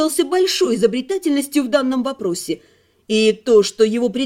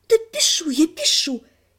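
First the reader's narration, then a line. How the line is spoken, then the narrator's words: Quiet hiss. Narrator (Russian): тихо зашипела Лана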